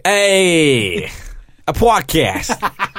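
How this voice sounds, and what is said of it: Put-on American accent. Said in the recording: “Isn't that accent amazing? ... I've been working on it for months. ... That's how they all talk.”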